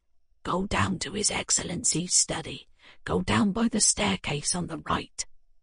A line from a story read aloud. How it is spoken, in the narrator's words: Nastia whispered to me